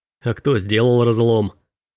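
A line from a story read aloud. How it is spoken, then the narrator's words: Snorted. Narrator (Russian): Робби фыркнул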